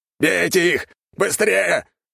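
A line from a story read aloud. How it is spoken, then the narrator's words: Shouting. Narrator (Russian): закричал генерал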